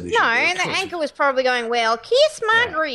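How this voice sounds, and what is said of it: Good put-on Tennessee accent. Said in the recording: “That was a very good Tennessee accent, actually.”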